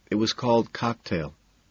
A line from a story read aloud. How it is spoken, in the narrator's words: says softly